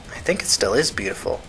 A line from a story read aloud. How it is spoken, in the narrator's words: Tina said quietly